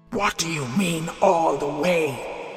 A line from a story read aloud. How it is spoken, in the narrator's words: growled the giant